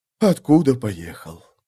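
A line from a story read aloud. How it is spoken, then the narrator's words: Sad, mournful. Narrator (Russian): печально добавил мертвец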